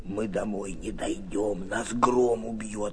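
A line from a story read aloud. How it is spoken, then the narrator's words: Whisper. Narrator (Russian): прошептал Антошка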